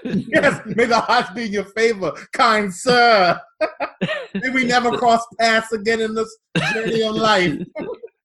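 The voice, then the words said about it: A put-on weird accent. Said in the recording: “I don't know why I went with a weird accent”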